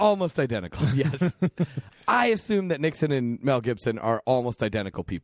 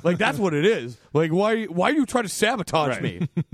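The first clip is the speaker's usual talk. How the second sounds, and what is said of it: Imitates another person's voice. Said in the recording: “my Nicolas Cage impression ... That's more like Nixon ... you're Nixon or you're Mel Gibson”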